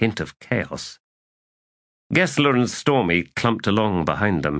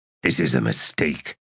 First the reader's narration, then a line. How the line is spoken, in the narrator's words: muttered Fiddler